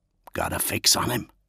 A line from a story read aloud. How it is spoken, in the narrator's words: Daemon hissed